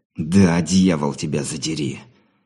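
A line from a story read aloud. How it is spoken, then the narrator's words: Venomous hateful hiss. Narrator (Russian): С ненавистью, источающей яд змеи, прошипел Андрей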